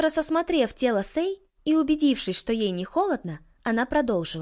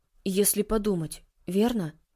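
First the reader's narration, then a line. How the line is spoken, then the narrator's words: Muttering under breath. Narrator (Russian): пробормотал Микаэла себе под нос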